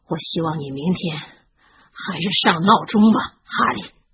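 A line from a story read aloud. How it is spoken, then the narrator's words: Muffled, gloomy. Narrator (Chinese): 罗恩声音闷闷地说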